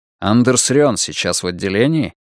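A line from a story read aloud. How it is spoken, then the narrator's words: Cold flat statement. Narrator (Russian): Брулин холодно констатировал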